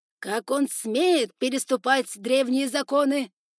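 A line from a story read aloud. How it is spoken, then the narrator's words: Yelling ruler. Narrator (Russian): орал повелитель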